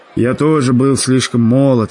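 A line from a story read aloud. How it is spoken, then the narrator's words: Sighing American man. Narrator (Russian): вздохнул американец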